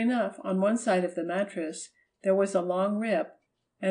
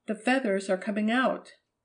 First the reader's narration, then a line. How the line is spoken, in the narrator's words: she cried